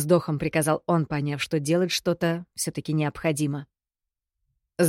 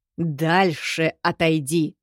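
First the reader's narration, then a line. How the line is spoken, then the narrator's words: Growl. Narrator (Russian): прорычал Кирино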